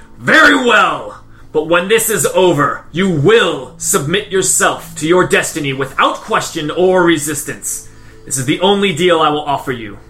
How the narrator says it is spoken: as he finishes his roar, he says

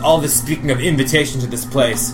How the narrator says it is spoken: Damon says, he kind of scoffs and he says

